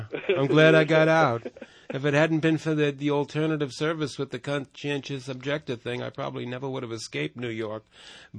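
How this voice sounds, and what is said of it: New York accent. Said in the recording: “Right now I can hear it. Now you're saying it well. ... I love the accent.”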